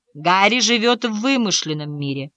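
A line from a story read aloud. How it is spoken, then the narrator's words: Sigh. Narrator (Russian): вздохнул господин Холдсворт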